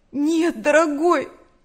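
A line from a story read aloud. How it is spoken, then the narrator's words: Trembling voice. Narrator (Russian): дрожащим голосом сказала Нэнси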